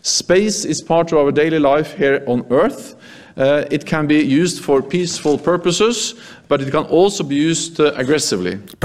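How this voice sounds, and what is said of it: Norwegian-accented English. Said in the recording (Dutch): “Prachtig dat Noorse accent van secretaris-generaal Jens Stoltenberg”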